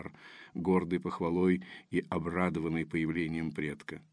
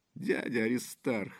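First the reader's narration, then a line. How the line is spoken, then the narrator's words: Squealing. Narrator (Russian): взвизгнула Дарья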